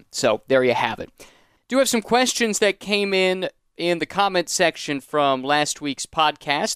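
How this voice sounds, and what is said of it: American accent. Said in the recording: “my rather annoying American accent”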